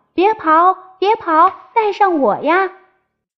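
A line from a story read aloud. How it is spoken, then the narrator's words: Desperate calling. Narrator (Chinese): 青蛙拼命的叫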